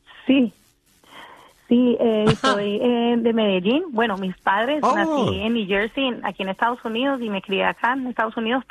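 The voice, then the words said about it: Slight Colombian Antioquian accent. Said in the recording (Spanish): “me encanta tu acento, estoy segurísimo que es antioqueño, colombiano ... un poquitico de acento colombiano”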